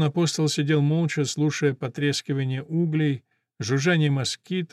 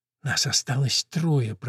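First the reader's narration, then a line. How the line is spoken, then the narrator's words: Whisper. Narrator (Russian): прошептала она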